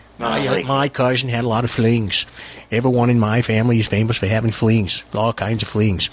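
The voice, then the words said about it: Put-on Boston accent. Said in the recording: “Sometimes people misunderstand the Boston accent. Sometimes we are misunderstood because of the way we talk.”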